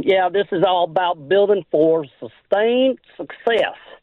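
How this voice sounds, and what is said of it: Imitates another person's voice. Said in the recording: “my best Jimmy impersonation.”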